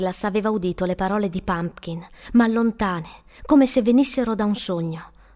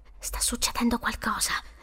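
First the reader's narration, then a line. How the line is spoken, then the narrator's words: Whispered. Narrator (Italian): sussurrò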